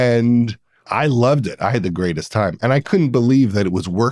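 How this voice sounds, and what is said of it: Usual voice. Nothing is said of it.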